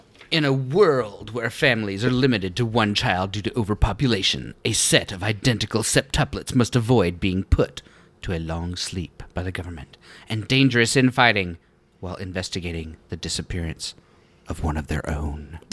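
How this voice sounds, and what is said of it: Dramatic movie-trailer narration voice. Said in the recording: “That was my dramatic voice. ... It was very dramatic.”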